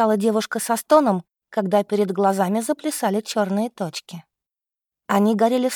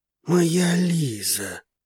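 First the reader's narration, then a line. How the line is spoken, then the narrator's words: Soft whisper. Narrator (Russian): тихо шептал мужчина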